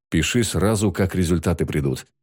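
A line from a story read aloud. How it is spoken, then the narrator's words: Plain. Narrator (Russian): сказал Ноиль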